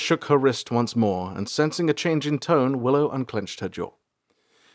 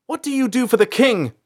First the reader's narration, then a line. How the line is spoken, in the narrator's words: April shouted